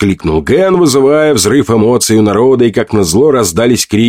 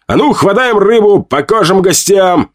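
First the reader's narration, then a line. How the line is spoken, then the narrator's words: Shout. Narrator (Russian): крикнул я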